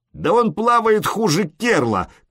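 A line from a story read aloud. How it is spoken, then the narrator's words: Shouted. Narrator (Russian): крикнул кто-то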